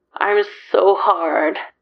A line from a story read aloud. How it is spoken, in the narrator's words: Claude moans a little